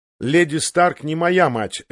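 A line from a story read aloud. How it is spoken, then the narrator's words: Sharp. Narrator (Russian): резко напомнил ему Джон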